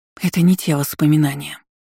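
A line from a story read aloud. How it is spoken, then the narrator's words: Hoarse wheeze. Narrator (Russian): просипела, памятуя указания Айролин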